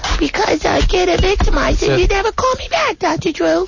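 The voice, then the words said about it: Squeaky high-pitched whiny voice. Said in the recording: “my voice is getting squeaky.”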